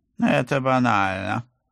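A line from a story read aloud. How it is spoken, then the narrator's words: Snorting. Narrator (Russian): фыркнул потрепанный пусик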